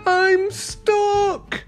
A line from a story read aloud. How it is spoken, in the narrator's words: he cried